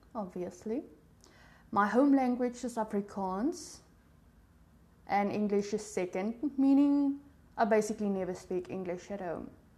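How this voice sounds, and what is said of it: South African accent. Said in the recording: “yes, I do have an accent ... my accent, it's barely noticeable ... I am from South Africa”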